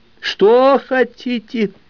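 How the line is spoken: Terrified yell. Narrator (Russian): завопил Ягердышка, понимая, что может скончаться от побоев

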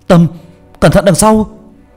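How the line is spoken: Shouting. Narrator (Vietnamese): ba tôi hét lên

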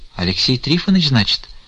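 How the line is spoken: Quiet. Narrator (Russian): тихо проговорила Аксинья Захаровна

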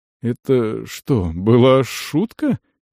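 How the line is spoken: Uncertain question. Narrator (Russian): неуверенно спросил Дарш

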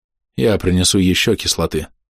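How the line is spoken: Tired. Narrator (Russian): устало проговорил Сиэрд

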